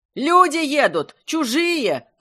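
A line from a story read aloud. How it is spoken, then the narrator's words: Boys yelling. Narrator (Russian): орали мальчишки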